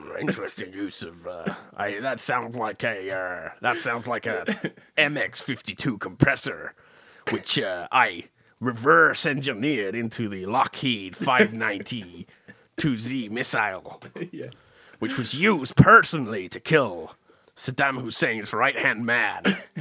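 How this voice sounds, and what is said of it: An impression of someone's voice. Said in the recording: “brilliant impression”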